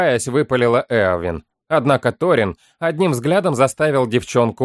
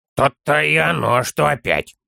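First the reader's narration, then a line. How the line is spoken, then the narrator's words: Child's grumpy mutter. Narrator (Russian): буркнул малыш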